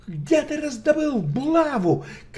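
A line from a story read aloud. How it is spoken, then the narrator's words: Shouting while running. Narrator (Russian): крикнул на бегу Шерлок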